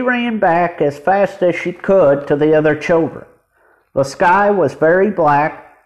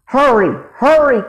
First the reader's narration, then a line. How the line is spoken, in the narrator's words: cried Jesse